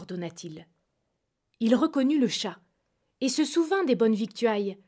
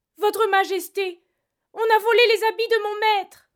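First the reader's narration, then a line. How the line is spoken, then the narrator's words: Cat moaning. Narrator (French): gémit le chat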